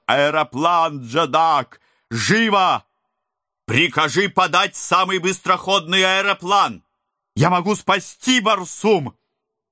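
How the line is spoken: Shouted urgently. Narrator (Russian): закричал

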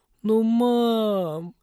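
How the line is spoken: Resigned groan. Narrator (Russian): обреченно простонала Полина

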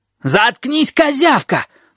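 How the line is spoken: Yelling. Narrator (Russian): заорал Лэри

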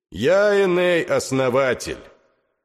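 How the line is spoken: Loud proclamation. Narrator (Russian): громко возгласил

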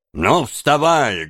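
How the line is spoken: Rough, rude. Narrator (Russian): грубо сказал он

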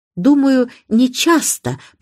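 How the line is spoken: Soft, plaintive voice. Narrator (Russian): продолжала мисс Марпл своим мягким жалобным голосом

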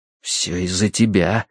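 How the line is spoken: Whisper. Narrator (Russian): шепнул я

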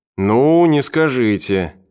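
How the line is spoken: Drawling. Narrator (Russian): протянул Эванс

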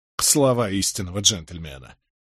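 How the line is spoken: Snorting. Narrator (Russian): фыркнул Тоби Локвуд

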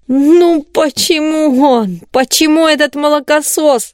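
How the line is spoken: Moaning. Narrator (Russian): простонал Калибан

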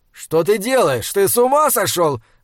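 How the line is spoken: Shouting. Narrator (Russian): закричал орфист

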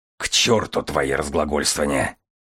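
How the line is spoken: Faltering, hoarse. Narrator (Russian): Маттер запнулся, проговорил хрипло

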